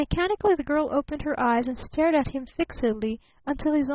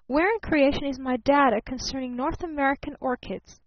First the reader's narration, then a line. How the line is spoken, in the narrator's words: called her father sharply from the next room